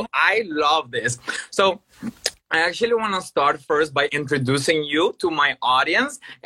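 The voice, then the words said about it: Hoarse, strained voice. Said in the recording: “I was already losing my voice”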